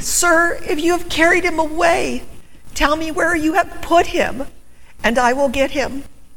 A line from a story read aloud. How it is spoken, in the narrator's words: Desperately pleaded